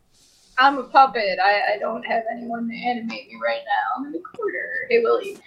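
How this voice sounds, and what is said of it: Puppet character voice impression. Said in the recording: “your best Alf impression ... I just did backstage Alf”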